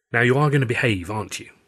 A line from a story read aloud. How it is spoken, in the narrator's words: Ren said